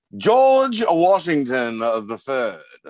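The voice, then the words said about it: Put-on accent. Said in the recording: “hopefully we hear your accent a couple more times”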